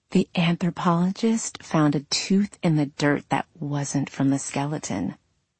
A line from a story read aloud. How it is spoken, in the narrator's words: whispered